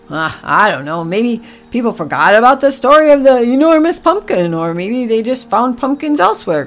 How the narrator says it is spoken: grunted Oliver

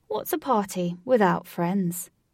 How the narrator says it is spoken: He answered in a strong British accent

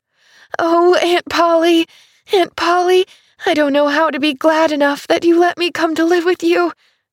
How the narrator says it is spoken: she was sobbing

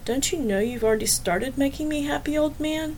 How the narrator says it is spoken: She said quietly

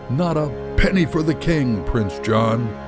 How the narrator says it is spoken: and they both burst out laughing

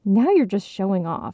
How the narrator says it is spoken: her mother muttered

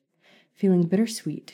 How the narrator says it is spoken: she sighed

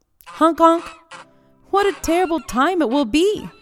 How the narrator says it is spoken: cried all the other geese

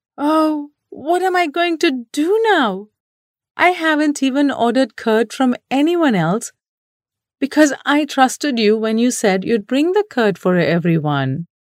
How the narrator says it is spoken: the teacher wailed

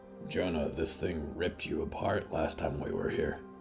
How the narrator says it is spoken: Hector grunted

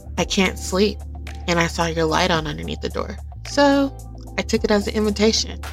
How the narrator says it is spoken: he laughed against Kimberly's ear

